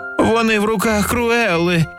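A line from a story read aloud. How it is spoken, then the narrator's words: Sad. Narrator (Ukrainian): сумно сказав Понго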